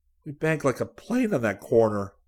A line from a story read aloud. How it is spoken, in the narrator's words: Rick said shakily